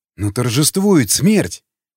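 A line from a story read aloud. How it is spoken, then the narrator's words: Exclaiming. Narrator (Russian): воскликнул Николай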